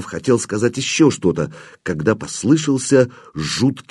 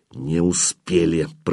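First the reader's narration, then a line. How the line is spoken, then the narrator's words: Through gritted teeth. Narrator (Russian): процедил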